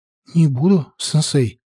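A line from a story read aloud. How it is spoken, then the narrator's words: Somewhat frightened. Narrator (Russian): несколько испуганно ответила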